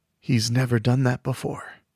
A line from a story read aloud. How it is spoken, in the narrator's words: Mick whispered